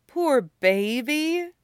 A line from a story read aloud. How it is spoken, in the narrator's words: Erica says, laughing